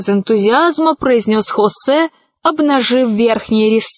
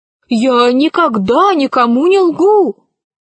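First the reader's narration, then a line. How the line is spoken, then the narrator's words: Joyful exclamation. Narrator (Russian): радостно воскликнул Хосе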